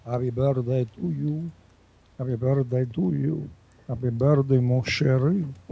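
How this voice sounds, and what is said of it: Put-on French accent, singing. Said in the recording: “I'll do it with the French accent.”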